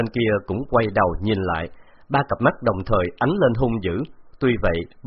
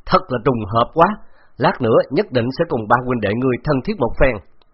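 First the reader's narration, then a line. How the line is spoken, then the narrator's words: Loud laugh, foreign tongue. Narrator (Vietnamese): Bạc Phong Hàn cười lớn rồi nói bằng tiếng Đột Quyết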